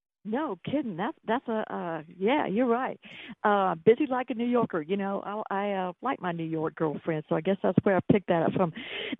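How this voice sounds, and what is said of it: Slight Southern Georgia accent. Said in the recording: “Do I have a little bit of an accent? ... Sweet Georgia accent. ... Just a touch.”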